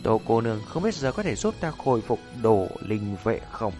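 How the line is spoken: Soft slow smiling voice. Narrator (Vietnamese): mỉm cười ... thanh âm nhu hòa chậm rãi

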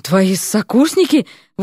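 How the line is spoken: Forced-out words. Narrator (Russian): выдавил, наконец, один

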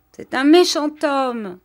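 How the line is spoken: Exclaiming. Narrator (French): s'écria Arthur

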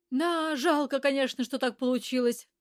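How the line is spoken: Regretful sigh. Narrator (Russian): вздохнула я, будто и в самом деле лишилась возможности дать Василию подколымить

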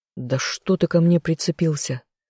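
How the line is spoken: Irritated grumble. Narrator (Russian): раздраженно буркнул я

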